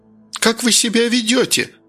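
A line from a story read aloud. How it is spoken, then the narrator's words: Aunt's sharp cry. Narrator (Russian): вскрикнула тетка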